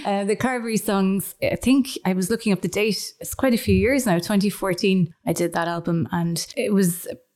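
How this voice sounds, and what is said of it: Hoarse voice. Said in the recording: “I'm actually hoarse from teaching all the little kids this morning”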